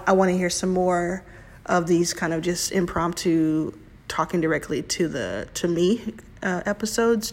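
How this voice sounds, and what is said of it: Rough, strained hoarse voice. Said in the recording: “my voice is really jacked up today”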